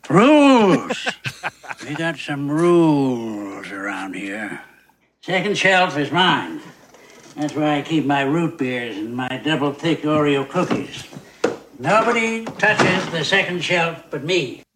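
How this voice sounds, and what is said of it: Old man voice. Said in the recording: “doing an old man voice?”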